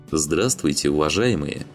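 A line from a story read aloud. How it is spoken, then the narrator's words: Deep bass voice, rider. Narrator (Russian): неожиданно густым басом произнес всадник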